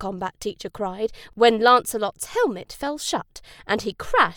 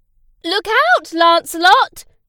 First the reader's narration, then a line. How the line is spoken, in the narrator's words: his riding teacher cried, as Lancelot fell off his horse